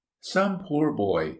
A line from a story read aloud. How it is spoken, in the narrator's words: she remarked to her husband, in a compassionate tone